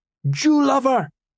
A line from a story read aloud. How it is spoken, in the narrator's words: they cried